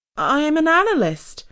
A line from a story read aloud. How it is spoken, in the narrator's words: she said in a reedy, nervous voice